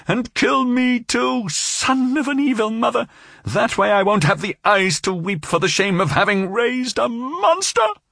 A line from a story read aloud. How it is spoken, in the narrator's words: she shouted